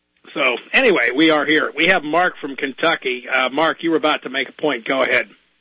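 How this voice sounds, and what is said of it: Raw, slightly hoarse voice. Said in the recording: “My voice is a little raw this evening, folks. I've been doing a lot of talking on the phone today”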